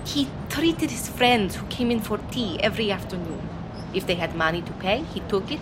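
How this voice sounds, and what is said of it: Accent listeners find hard to understand. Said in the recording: “it was my accent that was the problem. My customers could not understand what I said.”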